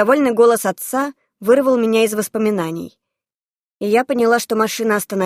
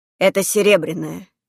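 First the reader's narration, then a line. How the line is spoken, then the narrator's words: Quiet father. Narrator (Russian): негромко проговорил отец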